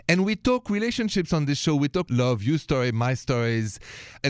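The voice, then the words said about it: Thick French accent. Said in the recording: “the accent, this thick accent of mine, straight from Paris”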